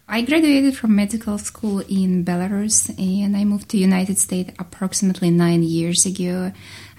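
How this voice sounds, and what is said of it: Noticeable foreign accent. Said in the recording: “your wonderful accent”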